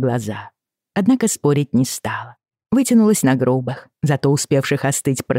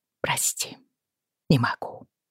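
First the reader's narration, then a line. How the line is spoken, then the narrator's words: Whisper. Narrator (Russian): прошептала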